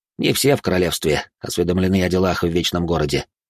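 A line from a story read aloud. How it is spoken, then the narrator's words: Scoffing grunt. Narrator (Russian): хмыкнул Хуан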